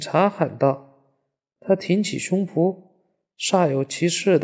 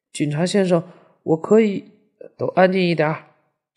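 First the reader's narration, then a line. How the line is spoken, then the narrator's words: Stern, sharp. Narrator (Chinese): 警察厉声道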